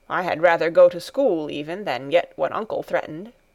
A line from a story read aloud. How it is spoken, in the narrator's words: he said in a somewhat sullen voice